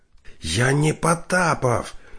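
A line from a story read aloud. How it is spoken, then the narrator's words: Hoarse rasping. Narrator (Russian): продолжал хрипеть Дальский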